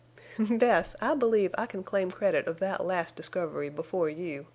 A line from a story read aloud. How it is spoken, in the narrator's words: Venters said, and laughed